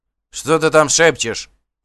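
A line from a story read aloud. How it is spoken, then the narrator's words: Sorcerer shouting from behind. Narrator (Russian): крикнул сзади колдун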